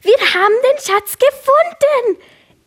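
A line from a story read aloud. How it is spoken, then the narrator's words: Overjoyed shout. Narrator (German): Felsi rief überglücklich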